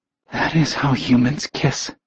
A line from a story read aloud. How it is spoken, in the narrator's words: she panted out breathlessly